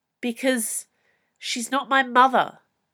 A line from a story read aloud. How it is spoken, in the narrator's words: Kai snapped back